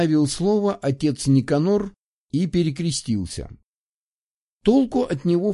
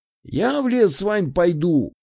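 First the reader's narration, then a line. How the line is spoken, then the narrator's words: Bold shout. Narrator (Russian): выкрикнул Данька и сам немного удивился своей смелости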